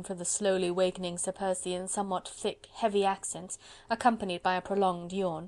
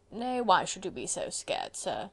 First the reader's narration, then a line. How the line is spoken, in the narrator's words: continued Sir Percy lazily